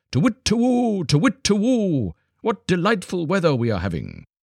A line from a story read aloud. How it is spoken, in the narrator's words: called out to each other across the forest